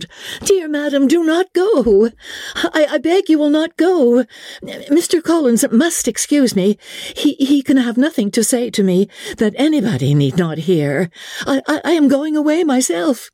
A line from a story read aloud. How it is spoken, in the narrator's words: Elizabeth called out